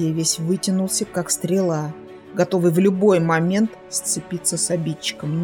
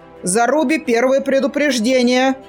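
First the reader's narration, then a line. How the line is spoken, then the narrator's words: Booming. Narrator (Russian): прогремел Кудьер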